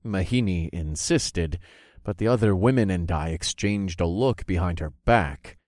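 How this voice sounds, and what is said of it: Usual voice. Nothing is said of it.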